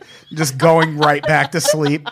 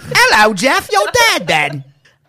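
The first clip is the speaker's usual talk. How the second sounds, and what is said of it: Weird put-on British accent. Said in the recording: “Like a weird British accent.”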